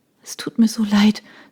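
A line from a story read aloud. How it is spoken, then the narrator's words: Soft sobbing. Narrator (German): sagte sie und schluchzte leise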